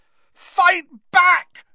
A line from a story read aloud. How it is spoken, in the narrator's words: Harry screamed at him